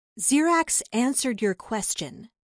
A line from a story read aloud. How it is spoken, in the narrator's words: she said